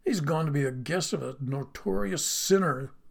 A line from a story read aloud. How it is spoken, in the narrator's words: grumbled